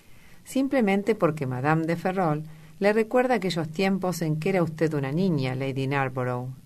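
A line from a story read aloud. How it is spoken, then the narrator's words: Plain. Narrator (Spanish): dijo Lord Henry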